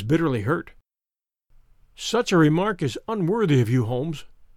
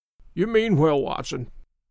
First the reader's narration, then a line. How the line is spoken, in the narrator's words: said the sick man, with something between a sob and a groan